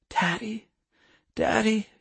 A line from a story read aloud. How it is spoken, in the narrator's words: whispered hoarsely